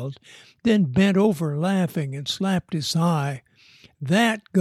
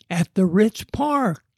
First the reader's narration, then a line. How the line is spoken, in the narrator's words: Jeff yelled back